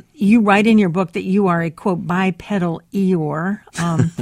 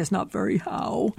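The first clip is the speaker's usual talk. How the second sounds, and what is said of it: Imitates Eeyore's gloomy cartoon voice. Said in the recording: “a good Eeyore impression”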